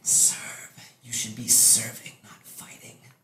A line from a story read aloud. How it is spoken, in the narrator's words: you can hear them whispering